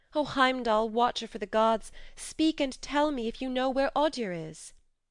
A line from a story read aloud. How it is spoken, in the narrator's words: cried